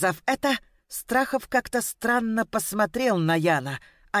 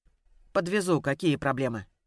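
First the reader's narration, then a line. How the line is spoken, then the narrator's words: Cold, curt after pause. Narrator (Russian): холодно бросил Ян после затянувшейся паузы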